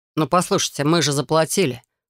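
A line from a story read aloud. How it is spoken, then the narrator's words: Through clenched teeth. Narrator (Russian): процедил Алекс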